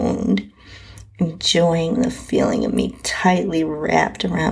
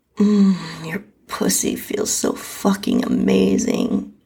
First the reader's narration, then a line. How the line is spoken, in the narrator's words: moaned